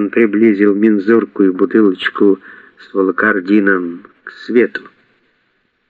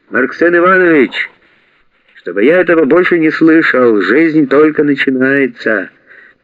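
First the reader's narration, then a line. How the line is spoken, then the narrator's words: Shouting from another room. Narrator (Russian): Вася закричал из кухни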